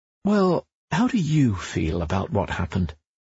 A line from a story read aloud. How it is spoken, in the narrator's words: the therapist is most likely to ask in a caring voice